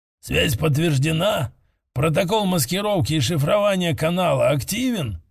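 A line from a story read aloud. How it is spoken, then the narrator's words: Hoarse question. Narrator (Russian): спросил Кхарн хриплым голосом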